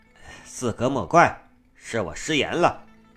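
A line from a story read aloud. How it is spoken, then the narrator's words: Smiling apology. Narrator (Chinese): 木子笑着作揖道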